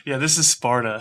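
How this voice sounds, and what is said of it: Gerard Butler impression, American accent. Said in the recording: “my Gerard Butler doing an American accent of his version of This is Sparta ... You nailed that.”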